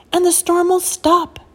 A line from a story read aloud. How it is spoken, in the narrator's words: he shouted